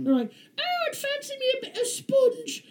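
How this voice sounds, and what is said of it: Mock snooty British accent. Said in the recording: “making fun of your fucking accent ... the snooty accents”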